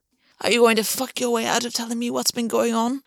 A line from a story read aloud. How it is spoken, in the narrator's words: August croaked around the hold Gwen had on his throat